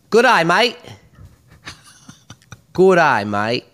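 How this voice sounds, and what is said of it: Put-on Australian accent. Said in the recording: “the sexiest accent is Australian ... do an Australian accent”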